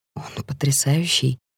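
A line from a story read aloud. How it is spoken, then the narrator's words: Half-voiced. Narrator (Russian): говорю я вполголоса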